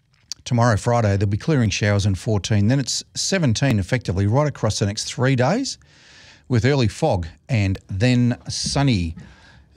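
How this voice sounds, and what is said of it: Slightly hoarse voice. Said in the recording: “I'm a bit hoarse today.”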